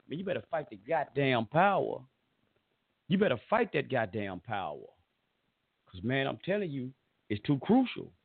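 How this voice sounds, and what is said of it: Southern drawl. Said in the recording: “I got this old southern drawl”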